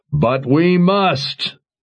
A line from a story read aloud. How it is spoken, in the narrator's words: Jagang roared